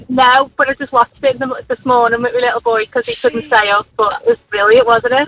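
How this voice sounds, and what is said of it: Noticeable regional accent, sounds cute. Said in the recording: “doesn't she sound cute? ... you sound lovely ... my accent”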